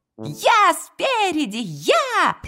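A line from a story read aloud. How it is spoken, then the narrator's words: Cheerful child shouting. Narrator (Russian): весело кричал крошек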